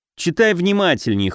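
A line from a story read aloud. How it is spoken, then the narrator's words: Snort. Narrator (Russian): хмыкнул Алёша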